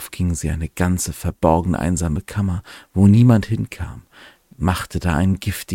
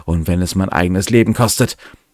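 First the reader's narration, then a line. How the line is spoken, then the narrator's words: Calling out. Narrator (German): rief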